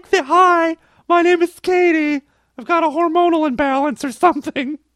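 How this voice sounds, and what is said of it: Fake teenage girl voice. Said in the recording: “My 14-year-old girl voice is so fakey.”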